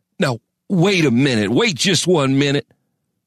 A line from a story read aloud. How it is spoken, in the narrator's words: sputtered Crane